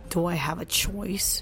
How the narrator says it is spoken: rejoined sullenly

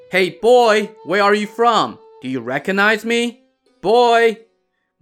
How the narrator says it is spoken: Marshal Hong called out to the kid

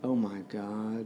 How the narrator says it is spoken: Shepherd muttered

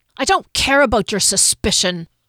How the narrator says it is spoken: Hunter spat

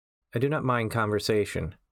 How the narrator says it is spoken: the barista replied

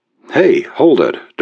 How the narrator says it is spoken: Dermot said anxiously

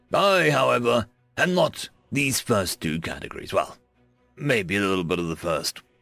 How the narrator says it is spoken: he said with a chuckle

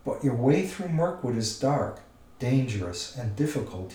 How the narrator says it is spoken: he said

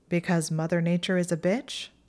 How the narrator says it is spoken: Hermione said dryly

